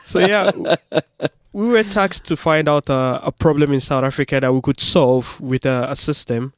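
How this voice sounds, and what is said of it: Speaks with an audible accent. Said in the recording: “you can hear he's got an accent”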